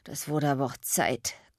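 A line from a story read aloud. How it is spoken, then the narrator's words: Panting. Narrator (German): keuchte er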